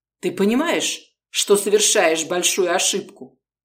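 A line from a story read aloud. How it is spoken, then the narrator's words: Cold, indifferent question. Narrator (Russian): холодно спросил он без интереса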